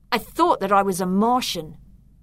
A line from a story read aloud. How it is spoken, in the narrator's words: I snapped in reply